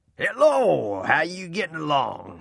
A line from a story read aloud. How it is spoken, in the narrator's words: he boomed